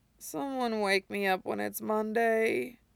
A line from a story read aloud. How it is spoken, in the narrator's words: mumbles to the empty room